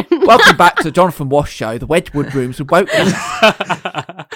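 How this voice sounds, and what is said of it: Jonathan Ross impression. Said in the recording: “doing his best Jonathan Ross impression.”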